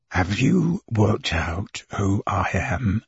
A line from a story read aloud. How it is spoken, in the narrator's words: whispered